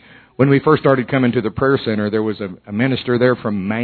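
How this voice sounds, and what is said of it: Usual voice. Nothing is said of it.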